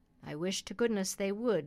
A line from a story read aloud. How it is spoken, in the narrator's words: said the butcher